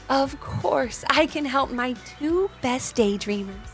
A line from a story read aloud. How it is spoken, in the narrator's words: whispered Wren